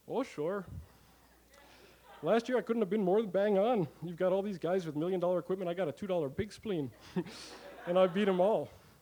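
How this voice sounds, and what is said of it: Put-on Saskatchewan Canadian accent. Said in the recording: “That's the perfect Saskatchewan accent”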